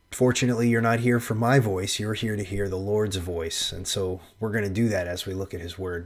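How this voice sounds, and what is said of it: Nasal, congested voice. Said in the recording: “I'm a little bit sick. My voice is a little nasally”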